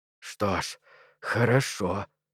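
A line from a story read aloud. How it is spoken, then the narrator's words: Hoarse speech. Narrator (Russian): хрипло проговорил Перри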